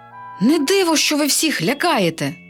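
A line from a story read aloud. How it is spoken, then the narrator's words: Princess exclaiming. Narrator (Ukrainian): вигукнула принцеса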